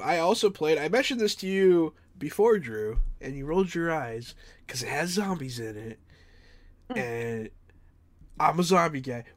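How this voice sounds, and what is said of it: Slightly off, sick-sounding voice. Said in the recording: “my voice is a little off. I've been sick this past week”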